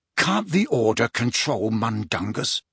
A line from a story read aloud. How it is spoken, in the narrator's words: Harry demanded in a furious whisper